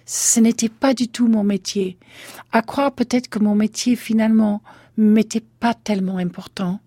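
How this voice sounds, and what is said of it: Speaks with a noticeable accent. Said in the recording (French): “à cause de mon accent”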